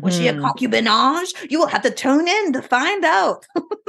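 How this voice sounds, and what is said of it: Put-on French accent. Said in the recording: “my fit French accent”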